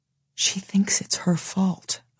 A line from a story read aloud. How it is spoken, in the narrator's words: Evglen whispers